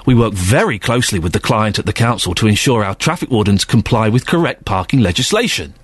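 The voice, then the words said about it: Sarcastic reading voice. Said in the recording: “I'm going to read it in a sarcastic voice”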